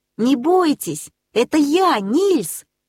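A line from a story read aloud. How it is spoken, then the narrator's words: Boy shouting. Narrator (Russian): крикнул мальчик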